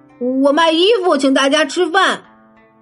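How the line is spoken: Anxious shout. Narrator (Chinese): 巴克乔着急的喊

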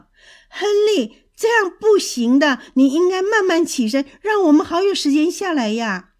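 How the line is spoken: Angry yelling. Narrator (Chinese): 大瞎猫生气地嚷着，边嚷

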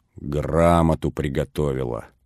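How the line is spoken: Tsar growling. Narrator (Russian): зарычал царь

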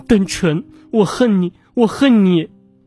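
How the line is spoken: Hysterical crying scream. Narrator (Chinese): 方婉婉却发出歇斯底里的哭喊

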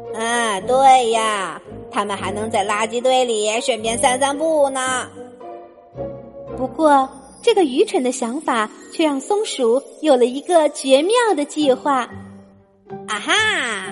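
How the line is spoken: Sighing. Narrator (Chinese): 松鼠叹了一口气说

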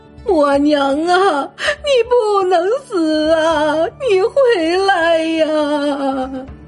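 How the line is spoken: Wailing, crying out. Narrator (Chinese): 母亲忍不住放声大哭，一边喊着

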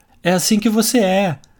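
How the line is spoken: Group shouting. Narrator (Portuguese): todos gritaram

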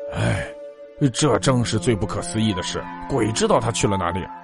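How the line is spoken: Old man sighing. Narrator (Chinese): 陈老伯叹道

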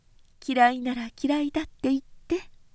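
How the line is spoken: Slightly high voice. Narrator (Japanese): とお秋は少し高い声で言った

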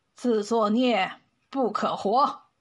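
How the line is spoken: Cold, stern. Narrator (Chinese): 陈雄拉下脸，冷冷的说

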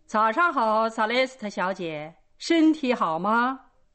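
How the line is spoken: Calling from afar. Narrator (Chinese): 从很远的地方，他便打着响边叫道

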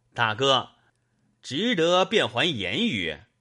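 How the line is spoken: Group, ingratiating smile. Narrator (Chinese): 众军陪着笑说道

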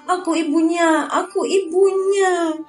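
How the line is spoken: Crying out while weeping. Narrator (Indonesian): Dia menangis sambil berseru

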